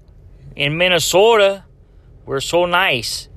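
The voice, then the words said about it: Horrible hybrid New York Italian Minnesotan accent. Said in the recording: “That's like a sort of hybrid New York Italian Minnesota. That's a horrible accent.”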